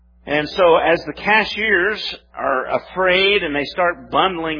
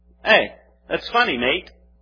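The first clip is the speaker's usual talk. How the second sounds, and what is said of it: Put-on British accent. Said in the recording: “That's my best British accent. You like it?”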